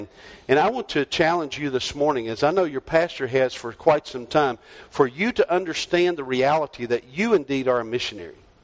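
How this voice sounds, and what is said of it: North Carolina Southern accent. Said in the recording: “my voice sounds a little strange, you can tell I'm not from Arizona. I grew up in North Carolina”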